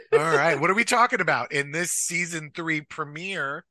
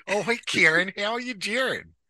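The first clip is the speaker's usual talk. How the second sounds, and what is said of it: Midwestern Great Lakes accent. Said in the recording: “my accent went a little forward there ... Went a little lakey. A little great lakey ... A little Midwest”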